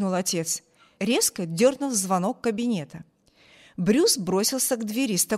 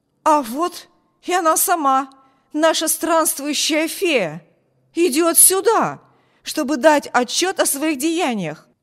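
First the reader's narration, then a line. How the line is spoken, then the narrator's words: Exclamation. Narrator (Russian): воскликнул он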